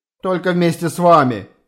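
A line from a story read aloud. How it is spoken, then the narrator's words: Laughing reply. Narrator (Russian): смеясь ответил Ули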